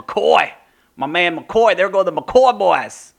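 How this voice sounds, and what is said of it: Poor put-on accent. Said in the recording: “Oh, that was a terrible accent”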